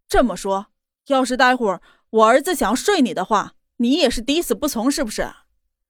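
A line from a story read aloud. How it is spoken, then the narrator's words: Exasperated but patient. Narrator (Chinese): 莫云熙 很抓狂 还是耐着性子道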